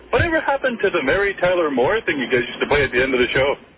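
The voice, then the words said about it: Canadian accent. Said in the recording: “Canada, I'm guessing, by the dumb accent.”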